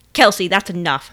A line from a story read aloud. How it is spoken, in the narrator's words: her dad snapped